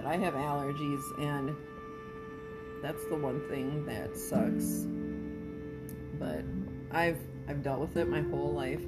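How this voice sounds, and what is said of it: Raspy voice. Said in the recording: “That's why I have that nice raspy, sexy voice.”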